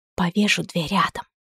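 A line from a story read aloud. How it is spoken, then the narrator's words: Whisper. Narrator (Russian): шепнула она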